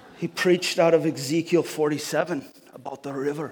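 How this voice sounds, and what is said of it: Put-on Scottish accent. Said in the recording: “there's this Scottish preacher ... I'm giving you the accent so you can imagine it”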